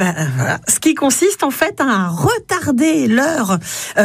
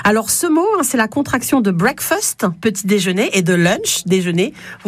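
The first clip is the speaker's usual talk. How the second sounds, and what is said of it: English accent on English words. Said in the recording (French): “Vous avouerez ce bel accent anglais qui est le mien.”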